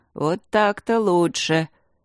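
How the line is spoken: Many-voiced. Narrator (Russian): Люк, превращаясь в Смитсона, сказал многоголосым голосом

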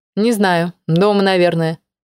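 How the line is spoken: Cold reply. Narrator (Russian): холодно ответила Алена

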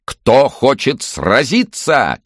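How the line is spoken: Shouting. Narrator (Russian): кричал ведущий

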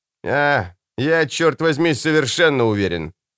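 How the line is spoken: Snorting. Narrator (Russian): фыркнул Алекс

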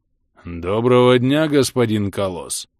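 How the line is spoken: Deep rumbling bass. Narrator (Russian): пророкотала низким басом Это

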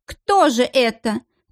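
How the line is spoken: Tragic exclamation. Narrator (Russian): трагическим голосом воскликнула Синебрюхова

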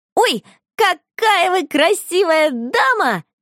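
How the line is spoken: Shouted. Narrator (Russian): закричала она

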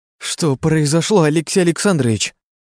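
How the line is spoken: Exclaiming. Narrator (Russian): воскликнула она

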